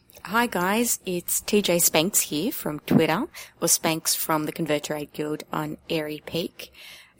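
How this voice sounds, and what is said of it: Speaks with a notable accent. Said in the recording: “Another awesome accent”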